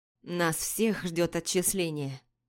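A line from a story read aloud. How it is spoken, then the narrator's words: Dejected voice. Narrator (Russian): упавшим голосом проговорил Этьен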